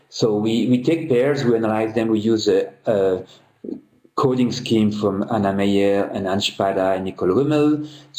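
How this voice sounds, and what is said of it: Speaks with a noticeable accent. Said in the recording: “Sorry for my accent.”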